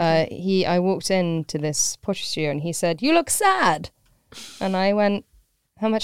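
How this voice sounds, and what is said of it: Usual voice. Nothing is said of it.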